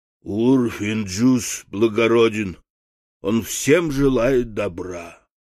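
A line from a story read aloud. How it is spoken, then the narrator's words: Low hoarse simple voice. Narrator (Russian): простодушный Карфакс добавил своим низким хриплым голосом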